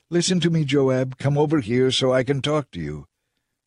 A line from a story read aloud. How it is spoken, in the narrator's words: a wise woman in the city called out to Joab